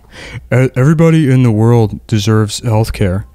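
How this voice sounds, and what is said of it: Bizarre imitation of another person's voice. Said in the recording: “her voice... She sounds bizarre... She sounds like this... doing the voice”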